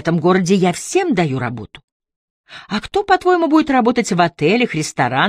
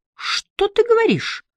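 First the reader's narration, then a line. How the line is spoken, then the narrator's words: Exclaiming. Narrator (Russian): воскликнула Агата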